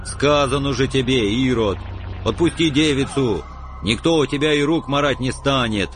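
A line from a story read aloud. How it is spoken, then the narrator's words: Booming angry voice. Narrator (Russian): прогудел злобыня Никитич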